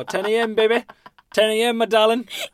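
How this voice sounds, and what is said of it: Odd unplaceable put-on accent. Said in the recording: “I don't know what the accent was ... I didn't have my own accent anymore ... Why do you say it like bebe?”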